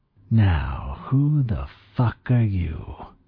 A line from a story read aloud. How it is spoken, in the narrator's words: he hissed at me